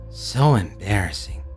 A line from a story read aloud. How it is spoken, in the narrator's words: grumbled under his breath